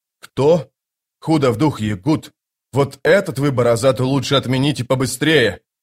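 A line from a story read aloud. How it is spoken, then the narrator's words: Growling. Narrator (Russian): прорычал Паран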